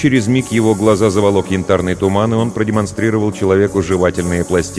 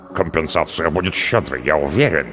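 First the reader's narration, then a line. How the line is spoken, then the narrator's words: Muttered. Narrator (Russian): пробормотал Харальмара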